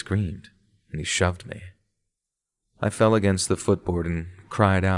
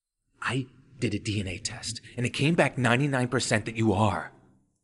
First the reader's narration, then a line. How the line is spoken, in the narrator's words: exclaimed dramatically, as if expecting me to be shocked by the revelation